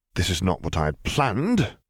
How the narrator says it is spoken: he muttered resignedly

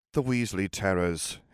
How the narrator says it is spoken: Harry said in a bored voice

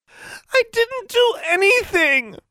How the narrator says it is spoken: Tomo wailed

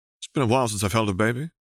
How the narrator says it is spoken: Harry chuckled nervously

